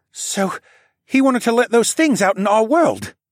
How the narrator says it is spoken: Callan gasped

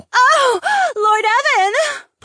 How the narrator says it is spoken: Polina screeched

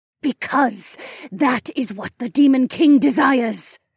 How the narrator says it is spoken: Remna snarled

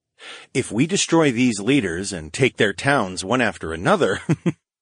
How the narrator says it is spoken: I chuckled under my breath

